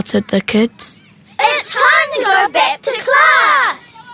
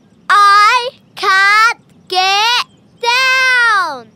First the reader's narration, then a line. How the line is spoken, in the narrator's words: shouted my sister